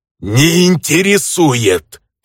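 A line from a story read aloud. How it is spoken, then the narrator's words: Near-growling bandit. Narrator (Russian): Почти прорычал бандит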